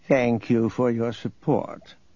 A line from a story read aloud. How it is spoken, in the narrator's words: Nereus purred